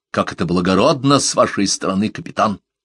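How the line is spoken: Mock-reverent mutter. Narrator (Russian): с наигранным благоговением пробормотал Маклеод

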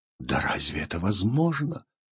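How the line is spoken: Unconscious whisper. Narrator (Russian): шептал он бессознательно

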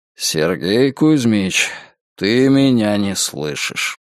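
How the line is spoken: Dejected sigh. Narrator (Russian): удрученно вздохнул генерал

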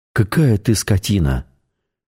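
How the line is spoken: Breathed out. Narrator (Russian): выдохнула Светлана

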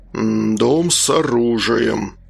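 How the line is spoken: Thoughtful deep bass. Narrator (Russian): задумчиво пробасил Олег

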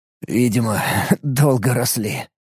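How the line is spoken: Snort. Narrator (Russian): хмыкнул Алекс

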